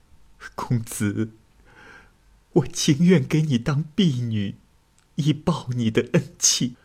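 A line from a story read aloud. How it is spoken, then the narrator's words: Crying. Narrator (Chinese): 陆家小姐哭着说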